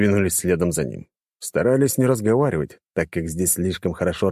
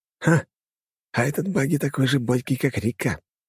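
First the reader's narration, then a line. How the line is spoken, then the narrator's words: Whispered. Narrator (Russian): шепнул я Алисии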